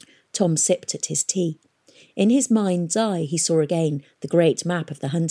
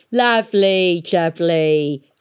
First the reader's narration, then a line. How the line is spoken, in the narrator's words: cackled Peavy, spraying them both with half-eaten sandwich